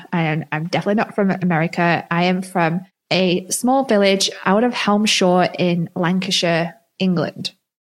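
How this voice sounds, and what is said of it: Mixed English and American accent. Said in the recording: “my accent is mixed now... is she American? Is she Australian? Is she English?”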